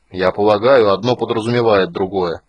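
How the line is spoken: Grumbling. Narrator (Russian): проворчал Флинт

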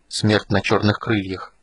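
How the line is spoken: Quiet repetition. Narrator (Russian): тихо повторил Танис

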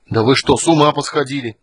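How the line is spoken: Angry growl. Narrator (Russian): зарычал Танис

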